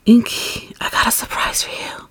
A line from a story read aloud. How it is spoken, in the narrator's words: Mitsuki whispered in your ear